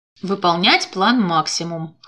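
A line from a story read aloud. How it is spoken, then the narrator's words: Snorting. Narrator (Russian): хмыкнул Гордин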